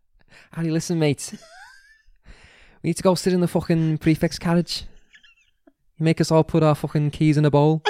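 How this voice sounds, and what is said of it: Put-on accent. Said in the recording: “Accent.”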